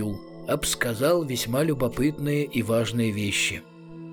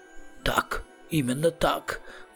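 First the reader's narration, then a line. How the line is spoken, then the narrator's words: Dejected hiss. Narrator (Russian): удрученно прошипел Рамкек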